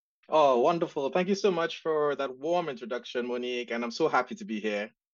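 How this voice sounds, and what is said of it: Trinidadian accent. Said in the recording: “the accent that you guys would hear is from Trinidad and Tobago ... my accent never left.”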